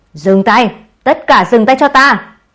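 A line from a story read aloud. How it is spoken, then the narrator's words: Roaring shout. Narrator (Vietnamese): Tạp Trác Nhân gầm lên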